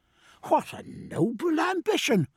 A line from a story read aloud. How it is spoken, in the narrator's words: cried Stephen